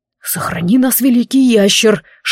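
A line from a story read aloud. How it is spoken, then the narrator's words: Whispering dragon. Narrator (Russian): шепнул дракон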